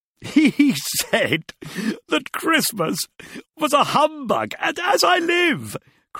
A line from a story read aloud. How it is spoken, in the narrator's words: cried Scrooge's nephew